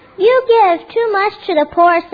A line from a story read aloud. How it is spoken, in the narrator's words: said the world